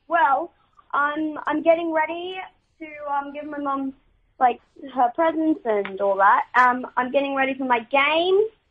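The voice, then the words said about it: Excited voice. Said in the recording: “You sound excited”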